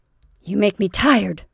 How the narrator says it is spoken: snapped Eva impatiently

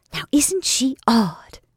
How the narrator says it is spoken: whispered Kate to her brother

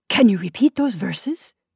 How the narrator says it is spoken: asked the king eagerly

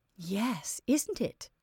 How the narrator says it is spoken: said Anne softly

